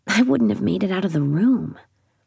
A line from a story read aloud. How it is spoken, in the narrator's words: Holly says softly